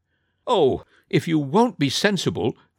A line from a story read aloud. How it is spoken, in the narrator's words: cried the boy